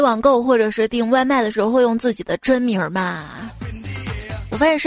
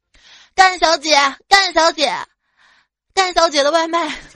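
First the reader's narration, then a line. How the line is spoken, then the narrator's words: Loud shout from afar. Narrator (Chinese): 就从公公司门口冲着公司里面就大喊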